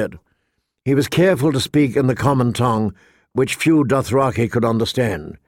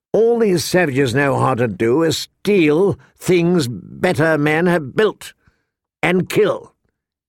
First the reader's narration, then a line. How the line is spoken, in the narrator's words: went on bitterly